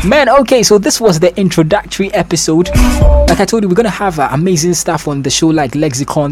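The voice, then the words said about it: Cockney English accent. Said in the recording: “my Cockney accent ... my Cockney accent”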